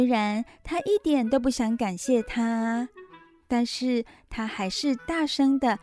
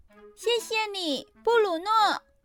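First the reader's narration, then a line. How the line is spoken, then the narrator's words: Loud shout. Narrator (Chinese): 他大声地喊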